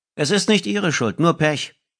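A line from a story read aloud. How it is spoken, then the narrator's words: Slightly raised announcing voice. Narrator (German): verkündete er mit leicht erhobener Stimme, damit ihn die anderen Fahrgäste hörten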